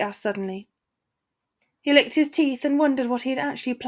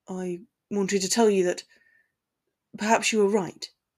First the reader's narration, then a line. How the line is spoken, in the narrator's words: he muttered, almost half hoping she wouldn't hear him